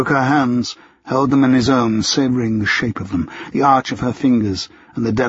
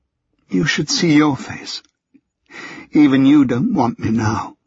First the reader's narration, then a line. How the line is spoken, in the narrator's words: She swallowed awkwardly, and then sadly said